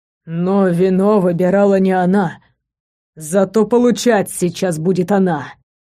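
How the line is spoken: Growling. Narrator (Russian): прорычал истинный

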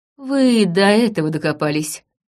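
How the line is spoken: Wry grunt. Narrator (Russian): хмыкнул Таваль

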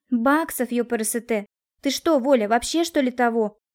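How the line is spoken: Irritated exclamation. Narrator (Russian): раздраженно воскликнула Кристина

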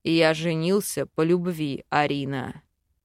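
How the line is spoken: Angry demon growl. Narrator (Russian): Рыкнул злой демон

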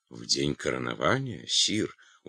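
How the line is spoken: Surprised mumble. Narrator (Russian): удивленно пробормотал Эрон

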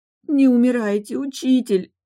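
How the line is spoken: Sobbing. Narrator (Russian): рыдала я

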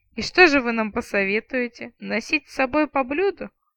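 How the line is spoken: Chuckling. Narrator (Russian): хохотнул отставной тысячник

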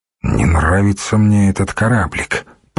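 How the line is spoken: Muttering. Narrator (Russian): пробормотал он

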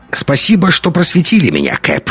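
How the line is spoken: Wry snort. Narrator (Russian): хмыкнул Догерти

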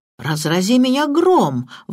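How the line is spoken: Exclamation. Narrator (Russian): воскликнул сэр Генри

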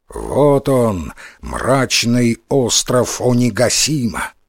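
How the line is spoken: Plain. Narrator (Russian): говорит Момотаро спутникам

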